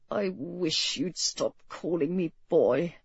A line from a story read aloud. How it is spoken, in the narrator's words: he muttered